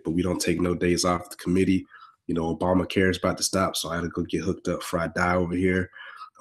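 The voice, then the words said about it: Sick-sounding voice. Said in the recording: “excuse my voice, I'm sick”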